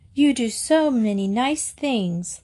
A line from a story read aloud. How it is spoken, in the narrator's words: Lillian cried, her eyes shining